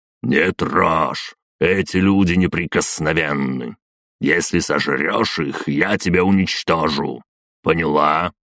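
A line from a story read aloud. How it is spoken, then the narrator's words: Menacing priest's voice. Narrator (Russian): Жрец грозно произнес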